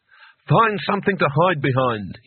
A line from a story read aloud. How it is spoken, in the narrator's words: he barked, with his voice shaking only slightly